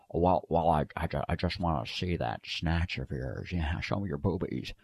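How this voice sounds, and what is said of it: Imitates another person's voice. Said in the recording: “I've got a perverted Jimmy Stewart.”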